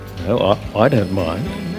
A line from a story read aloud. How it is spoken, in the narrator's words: Taken by surprise, the non-mumbler said